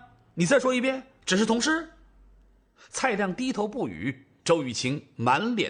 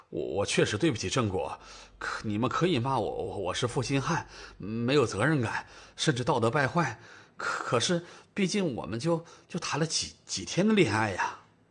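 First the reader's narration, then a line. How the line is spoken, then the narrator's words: Mumbling. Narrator (Chinese): 蔡亮低着头，嘴里嘟嘟囔囔的说道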